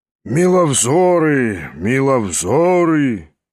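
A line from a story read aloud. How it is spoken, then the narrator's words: Hoarse bass, slight exclamation. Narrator (Russian): изволил он выговорить сиплым баском и с легким восклицанием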